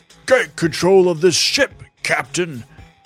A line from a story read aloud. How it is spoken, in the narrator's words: bellowed Bogus